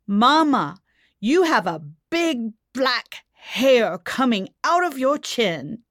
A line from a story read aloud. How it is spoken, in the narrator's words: with an alarmed look on her face and declared loudly